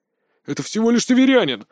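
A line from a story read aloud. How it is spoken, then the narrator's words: Exclaiming. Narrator (Russian): воскликнул Пак Хишунь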